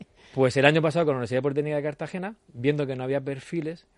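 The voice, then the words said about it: Murcian Spanish accent. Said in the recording (Spanish): “mi acento se nota que soy de Cartagena, de Murcia”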